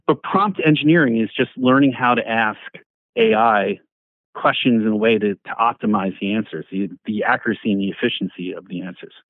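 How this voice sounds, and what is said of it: New York accent. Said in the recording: “My New York accent can butcher that word sometimes.”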